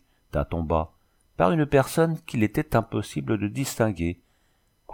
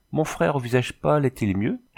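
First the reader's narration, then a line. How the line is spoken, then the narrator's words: Plain. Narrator (French): demanda Ménec Ouiakon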